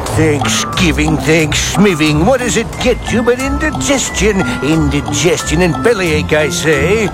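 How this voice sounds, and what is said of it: Scary nightmare-inducing character voice. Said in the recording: “do that voice you use when you want to give me nightmares”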